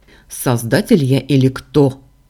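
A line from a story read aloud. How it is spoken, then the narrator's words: Man snorting. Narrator (Russian): фыркнул мужчина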